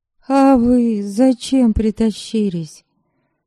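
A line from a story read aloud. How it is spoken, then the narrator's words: Tired question, female. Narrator (Russian): устало спросила Ерисава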